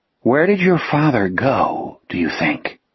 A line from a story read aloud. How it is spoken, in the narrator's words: Jack asked softly